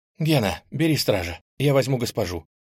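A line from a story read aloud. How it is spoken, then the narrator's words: Excited rapid chatter. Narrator (Russian): тут же взволнованно затараторила Нель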